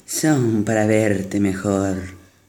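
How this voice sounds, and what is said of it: Wolf imitating an old woman's voice. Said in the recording (Spanish): “tratando de imitar la voz de la vieja”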